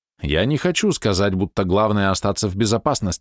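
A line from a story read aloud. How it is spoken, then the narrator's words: Plain. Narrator (Russian): ответил Кунцзы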